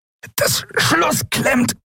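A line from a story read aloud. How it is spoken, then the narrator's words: Strained, tight voice. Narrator (German): antwortete Quailor mit gepresster Stimme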